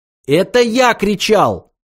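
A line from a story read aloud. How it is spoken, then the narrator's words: Shouted. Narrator (Russian): закричал Артур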